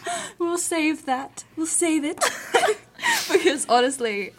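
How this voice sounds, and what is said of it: Usual voice. Nothing is said of it.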